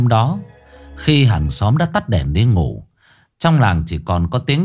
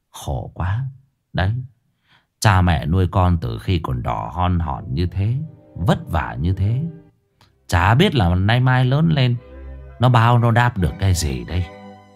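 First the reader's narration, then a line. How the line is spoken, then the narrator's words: Sighing. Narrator (Vietnamese): thở dài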